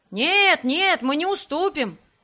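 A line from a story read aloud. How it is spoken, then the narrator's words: Group shouting. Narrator (Russian): кричали другие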